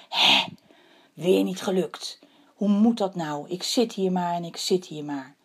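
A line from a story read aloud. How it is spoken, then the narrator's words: Bird sighing deeply. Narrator (Dutch): de vogel Wok zuchtte diep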